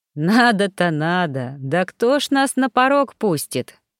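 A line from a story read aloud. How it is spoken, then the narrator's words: Amused chuckle. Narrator (Russian): хохотнул Гордей, млея от моей наивности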